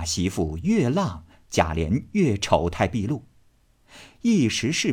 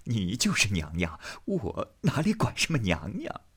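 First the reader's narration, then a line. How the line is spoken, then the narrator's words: Breathless reply. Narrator (Chinese): 贾琏喘吁吁答道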